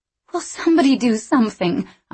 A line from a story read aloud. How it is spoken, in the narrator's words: I cried